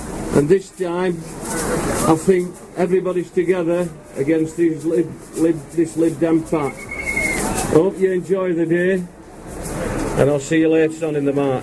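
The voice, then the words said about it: Barnsley accent. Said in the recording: “Coming from Barnsley, as you might have taken up with my accent”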